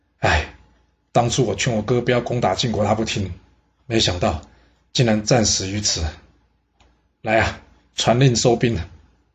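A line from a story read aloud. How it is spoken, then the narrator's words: Sighing. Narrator (Chinese): 白吞叹了口气说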